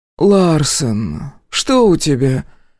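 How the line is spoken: Hoarse rasp in the ear. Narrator (Russian): прохрипела Эмили мне в ухо

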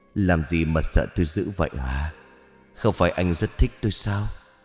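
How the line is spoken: Smiling, clear-voiced question. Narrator (Vietnamese): Út Hoa khẽ mỉm cười, cất lên giọng lanh lành rồi hỏi

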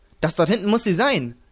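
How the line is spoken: Calling out. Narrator (German): rief Moto

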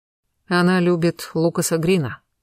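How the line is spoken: Sudden muffled reply. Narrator (Russian): неожиданно глухо отозвался Веслоцкий

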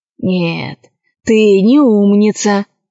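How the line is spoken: Sighing. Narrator (Russian): вздохнул крыс

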